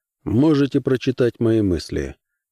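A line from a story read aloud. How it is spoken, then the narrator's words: Calm offer. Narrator (Russian): Посредник спокойно предложил ему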